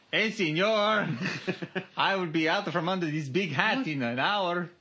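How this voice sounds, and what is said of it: Put-on Mexican Spanish accent. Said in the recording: “What was the accent for? ... you a Mexican?”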